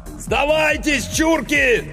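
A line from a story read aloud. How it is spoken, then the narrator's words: Yelled through megaphone. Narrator (Russian): заорал Иванов в мегафон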